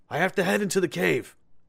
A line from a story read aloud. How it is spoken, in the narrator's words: Jack cried